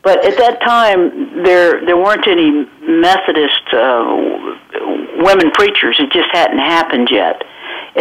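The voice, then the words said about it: Southern US drawl. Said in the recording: “I'm from South Georgia, if you detect a little southern drawl.”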